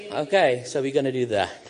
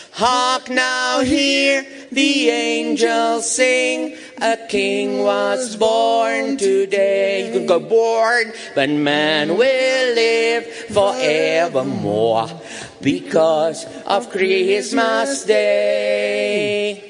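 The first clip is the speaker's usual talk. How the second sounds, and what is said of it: Singing in a Boney M-style accent. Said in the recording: “I sing it a bit with the Boney M accent.”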